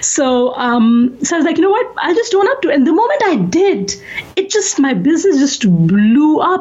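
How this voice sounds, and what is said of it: South Asian accent. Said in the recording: “Every single movie that's about a South Asian has the same accent that I have right now.”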